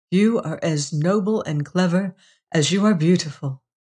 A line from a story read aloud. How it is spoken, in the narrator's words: he murmured